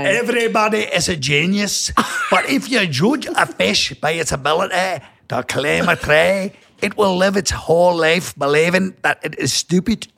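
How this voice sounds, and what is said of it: Put-on Scottish accent. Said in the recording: “What about Scottish? Can you do Scottish?”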